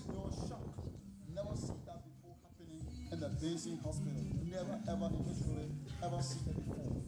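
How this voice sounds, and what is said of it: Very strong accent. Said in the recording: “got a very strong accent.”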